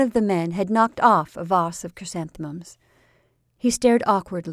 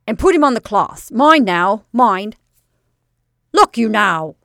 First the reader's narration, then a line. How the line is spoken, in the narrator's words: snapped the manager